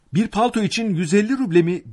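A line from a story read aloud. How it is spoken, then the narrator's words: Poor man shouting. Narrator (Turkish): diye bağırdı zavallı Akaki Akakiyeviç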